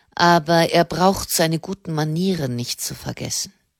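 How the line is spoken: Cold remark. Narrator (German): meinte der Generalmeister kalt

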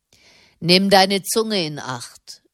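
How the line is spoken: Official snapping sharply. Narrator (German): fuhr ihn der Beamte scharf an

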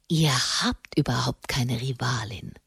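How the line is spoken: Hoarse whisper. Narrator (German): flüsterte er heiser

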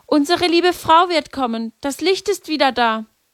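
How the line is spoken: Called out. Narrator (German): Lucia ... rief

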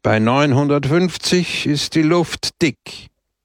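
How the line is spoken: Raised voice. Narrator (German): sagte er mit erhobener Stimme

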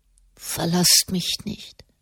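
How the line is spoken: Boy murmuring. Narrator (German): murmelte der Knabe

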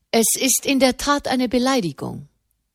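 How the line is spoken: Plain. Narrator (German): sagte di Dini

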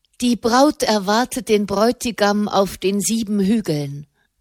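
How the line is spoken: Plain. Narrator (German): sagte

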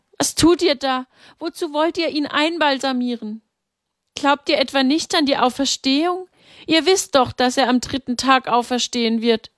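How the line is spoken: Called out. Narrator (German): rief

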